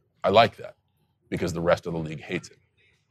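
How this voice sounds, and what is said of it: Usual voice. Nothing is said of it.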